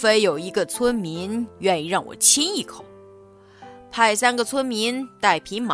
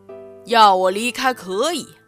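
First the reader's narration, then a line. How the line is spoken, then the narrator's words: Roaring dragon. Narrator (Chinese): 巨龙大吼一声 大声吼道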